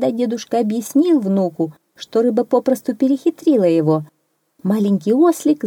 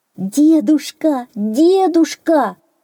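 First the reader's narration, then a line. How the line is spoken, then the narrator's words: Little donkey shouting. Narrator (Russian): закричал маленький ослик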